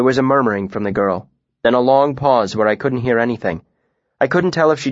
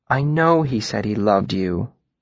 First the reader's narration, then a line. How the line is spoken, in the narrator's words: Denna said, her voice gentle